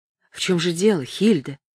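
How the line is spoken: Plain. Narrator (Russian): спросил он

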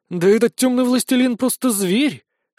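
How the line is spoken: Admiring breathy exclamation. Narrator (Russian): с искренним восхищением выдохнула Донна

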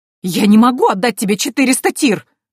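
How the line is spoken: Indignant muffled shout. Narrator (Russian): возмущенно крикнула Антария из-за горы подушек

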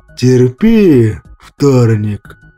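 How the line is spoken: Creaky trembling pained voice. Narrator (Russian): проскрипел дрожащим голосом Кощей, видимо, испытывающий те же самые болезненные ощущения

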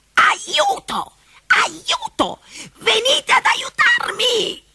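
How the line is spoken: Furious shrieking. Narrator (Italian): strillava furioso

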